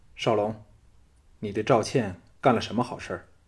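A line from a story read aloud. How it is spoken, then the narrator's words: Cold, displeased. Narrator (Chinese): 雅夫人脸带不悦之色，冷冷地说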